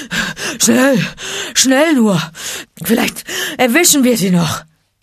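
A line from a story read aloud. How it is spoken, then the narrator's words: Panting. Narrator (German): keuchte Balu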